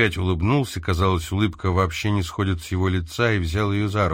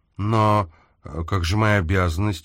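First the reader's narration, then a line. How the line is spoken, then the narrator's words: Uncertain. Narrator (Russian): неуверенно заговорила Мэри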